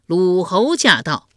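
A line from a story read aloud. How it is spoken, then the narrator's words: Loud ceremonial announcement. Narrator (Chinese): 东郭牙高声唱道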